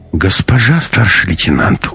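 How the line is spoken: Tired sigh. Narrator (Russian): устало вздохнул проверяющий

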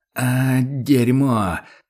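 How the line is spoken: Angry groan, barely restrained. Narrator (Russian): простонал Курт со злостью и вытолкнул, едва сдерживаясь

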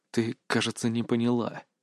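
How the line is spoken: Quiet threatening whisper. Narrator (Russian): тихо прошептал я, добавив в голос угрозы

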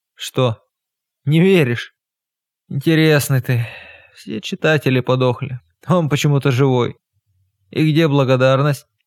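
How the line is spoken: Hoarse, persuasive voice. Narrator (Russian): Хриплый, растерявший краски очарования тембр, умел убеждать

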